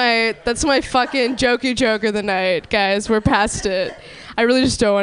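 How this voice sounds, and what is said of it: Usual voice. Nothing is said of it.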